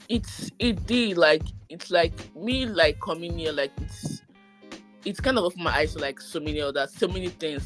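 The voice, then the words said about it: Nigerian accent. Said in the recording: “your accent has still not changed any. You still ah. sound like a Nigerian.”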